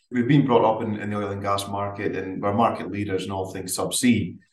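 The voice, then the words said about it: Subtle Aberdeen Scottish accent. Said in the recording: “you probably tell by the subtle accent, you know, from Aberdeen”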